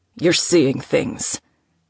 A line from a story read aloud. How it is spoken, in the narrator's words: Theodore growled